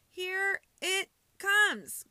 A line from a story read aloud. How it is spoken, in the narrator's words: Cole cried